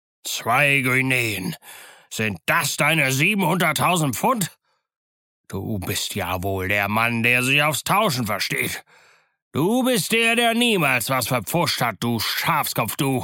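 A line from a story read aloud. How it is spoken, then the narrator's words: Roared. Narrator (German): Morgan ... brüllte Silver an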